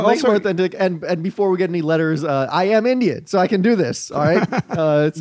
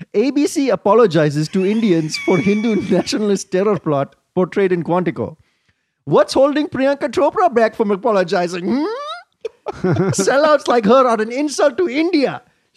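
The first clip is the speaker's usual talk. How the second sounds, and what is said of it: Put-on Indian accent. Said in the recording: “I read it in an Indian accent.”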